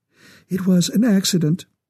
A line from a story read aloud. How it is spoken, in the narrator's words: her voice trembled